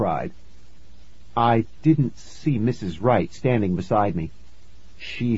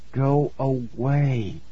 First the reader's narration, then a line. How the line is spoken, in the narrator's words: I said through clenched teeth